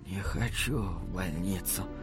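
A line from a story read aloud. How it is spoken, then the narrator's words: Whispered. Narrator (Russian): прошептала Норма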